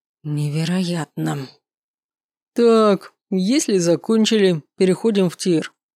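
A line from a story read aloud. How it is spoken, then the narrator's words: Loud older man. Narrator (Russian): громко произнес мужчина в возрасте, по прозвищу Физрук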